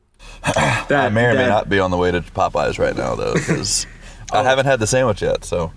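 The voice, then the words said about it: Impression of Gabe Hughes. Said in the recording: “tried to do his best Gabe Hughes impression ... imitation of Gabe Hughes”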